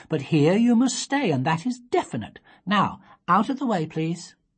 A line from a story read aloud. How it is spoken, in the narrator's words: said Sophie, firmly